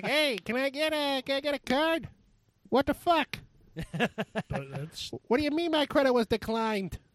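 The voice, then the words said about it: High-pitched put-on New Jersey accent. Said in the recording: “when I go Jersey, I end up going high, and my Jersey is my bad Pesci impression”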